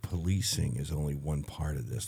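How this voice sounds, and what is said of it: Quiet, calm voice. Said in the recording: “in my nice quiet voice”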